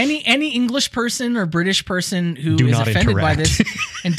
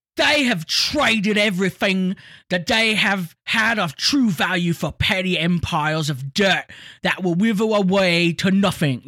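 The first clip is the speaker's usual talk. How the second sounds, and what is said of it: Put-on English accent. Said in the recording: “Can I do an English accent here? Let me try. ... they've got that weird British speech impediment is what I'm going for.”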